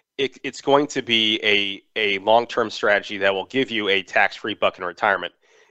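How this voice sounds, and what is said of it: Hoarse, strained voice. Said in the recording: “excuse me, I'm losing my voice here today.”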